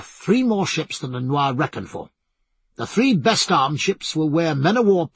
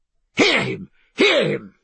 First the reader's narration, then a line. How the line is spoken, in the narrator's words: cried Mr